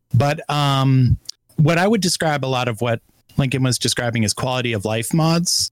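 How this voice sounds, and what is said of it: Hoarse, strained voice. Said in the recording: “I'm just getting over being sick, so I'm fighting through losing my voice.”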